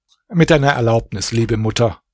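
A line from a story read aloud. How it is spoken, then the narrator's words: Plain. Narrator (German): antwortet Alaeddin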